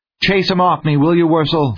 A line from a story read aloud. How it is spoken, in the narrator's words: Kinnison pleaded